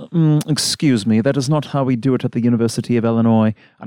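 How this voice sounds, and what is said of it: Put-on snooty hoity-toity accent. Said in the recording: “Hoity-toity, Ivy League crap ... I don't know what accent that was”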